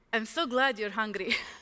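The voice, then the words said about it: Put-on accent imitating another person. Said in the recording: “I have to imitate it with an accent.”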